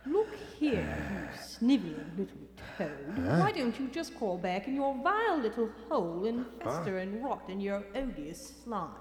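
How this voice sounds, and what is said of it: Scornful English upper-class accent. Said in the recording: “A wacky accent ... the withering scorn of the English upper class”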